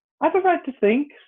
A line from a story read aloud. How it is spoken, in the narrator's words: said Alice sharply, for she was beginning to feel a little worried